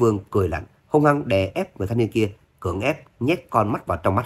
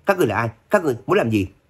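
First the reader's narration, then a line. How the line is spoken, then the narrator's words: Startled loud shout. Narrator (Vietnamese): giật mình hét lớn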